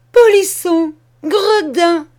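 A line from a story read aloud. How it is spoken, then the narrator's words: Exclaimed. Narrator (French): s'écria-t-elle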